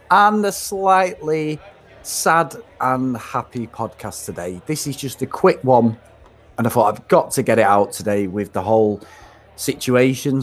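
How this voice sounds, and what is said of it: Mancunian English accent. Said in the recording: “as you can tell by my Mancunian accent.”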